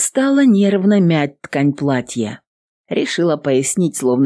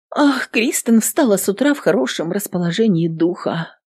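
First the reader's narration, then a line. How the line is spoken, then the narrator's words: Sad woman's voice. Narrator (Russian): печально произнесла женщина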